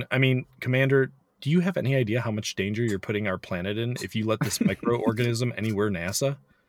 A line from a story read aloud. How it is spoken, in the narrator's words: laughs